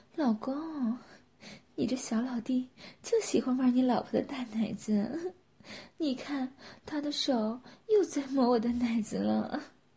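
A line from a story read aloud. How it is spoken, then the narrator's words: Laughing. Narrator (Chinese): 佳瑶笑着说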